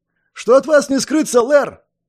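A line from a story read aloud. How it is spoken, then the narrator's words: Barked again. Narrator (Russian): Вновь рявкнул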